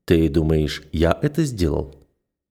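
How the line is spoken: Calm question. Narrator (Russian): спокойно интересуюсь я

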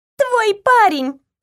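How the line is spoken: Joyful announcement. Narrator (Russian): радостно объявила Джейн

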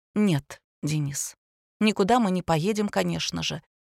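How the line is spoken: Quiet. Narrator (Russian): тихо проговорила она

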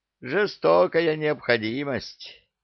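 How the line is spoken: Sigh. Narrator (Russian): вздохнул

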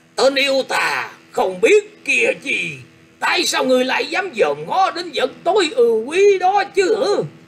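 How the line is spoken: Loud shout. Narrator (Vietnamese): có tiếng quát to lên rằng

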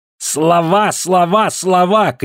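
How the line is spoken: Shouted. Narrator (Russian): крикнул Эрлих

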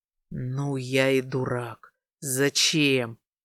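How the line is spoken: Quiet growl. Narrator (Russian): рычал чуть слышно, боясь разбудить девчонку

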